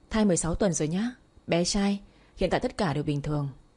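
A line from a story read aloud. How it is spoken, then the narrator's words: Smiling doctor. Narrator (Vietnamese): bác sĩ mỉm cười nói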